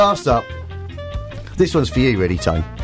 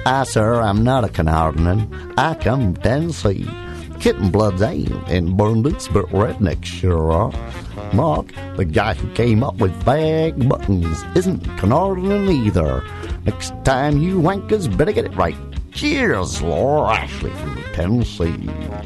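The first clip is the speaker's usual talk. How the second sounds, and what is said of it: Put-on Tennessee Southern accent. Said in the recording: “Now I'm going to say it again in her accent ... the Laura Ashley from Tennessee”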